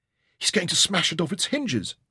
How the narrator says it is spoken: Rebecca gasped

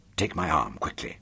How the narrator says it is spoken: I muttered in a secretive manner

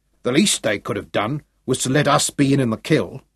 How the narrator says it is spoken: growled Sergeant Major Eccles

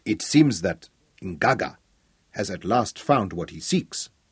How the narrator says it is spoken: pointed out grimly

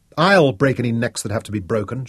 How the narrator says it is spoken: Shaza snapped

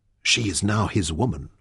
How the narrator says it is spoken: Fen whispered to Taita

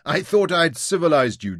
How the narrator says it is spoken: Jim laughed

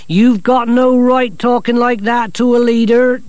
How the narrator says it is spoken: Torrid whined

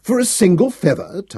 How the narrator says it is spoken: Thanos scoffed

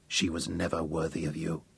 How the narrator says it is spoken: Sir Francis said softly

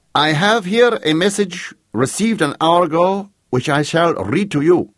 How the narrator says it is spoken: shouted the Count

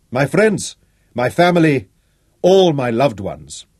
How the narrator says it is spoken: Manfred raised his voice

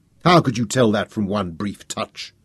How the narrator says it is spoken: sneered, still proud and affronted

